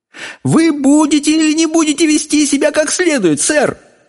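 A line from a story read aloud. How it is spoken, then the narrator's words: Exclaimed. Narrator (Russian): воскликнула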